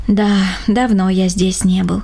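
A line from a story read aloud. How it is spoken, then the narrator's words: Sighing. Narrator (Russian): вздохнул Рома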